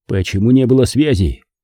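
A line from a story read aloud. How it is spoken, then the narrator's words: Very stern, over phone. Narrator (Russian): Необычайно строго спрашиваю по телефону у сержанта Минеева, командира отделения связи моей батареи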